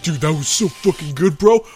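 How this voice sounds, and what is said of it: Imitation of a friend's voice. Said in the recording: “a good Mark impression”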